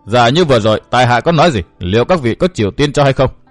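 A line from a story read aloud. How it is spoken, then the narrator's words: Loud laughing. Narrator (Vietnamese): Người áo đen cười lớn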